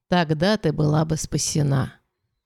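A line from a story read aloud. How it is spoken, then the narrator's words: Whisper, mother. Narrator (Russian): прошептала мать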